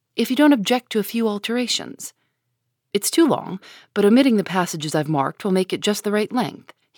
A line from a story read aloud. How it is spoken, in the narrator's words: said, in a businesslike tone